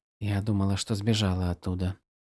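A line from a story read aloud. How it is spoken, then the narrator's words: Whisper. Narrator (Russian): прошептала Ишна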